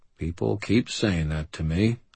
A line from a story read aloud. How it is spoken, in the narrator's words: I muttered